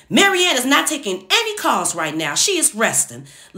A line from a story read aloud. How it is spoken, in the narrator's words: Jean snapped